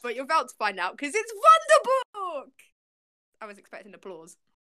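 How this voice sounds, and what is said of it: Put-on weird German accent. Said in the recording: “Weird German accents. ... You sound like the gingerbread man from Shrek.”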